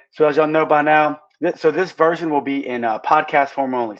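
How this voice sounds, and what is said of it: Hoarse voice. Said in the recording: “As you can hear, I'm hoarse from yelling at the game last night.”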